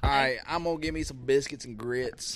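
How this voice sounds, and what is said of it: Put-on Southern accent. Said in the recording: “talk in a southern accent”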